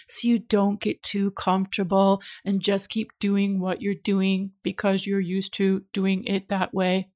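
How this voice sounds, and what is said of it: Flat robotic voice. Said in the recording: “That's my robot voice.”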